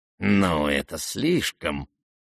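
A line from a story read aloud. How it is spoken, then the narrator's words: Old man muttering. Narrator (Russian): пробормотал старичок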